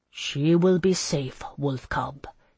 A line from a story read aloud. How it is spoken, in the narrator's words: Gunter said quietly